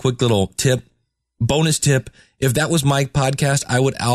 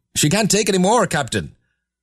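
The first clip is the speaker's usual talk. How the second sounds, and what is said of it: Attempted Scottish accent, Star Trek engineer. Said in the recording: “I cannot do a Scottish thing... See, I want to do like the dude on Star Trek.”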